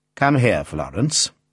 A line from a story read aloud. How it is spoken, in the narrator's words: said her father coldly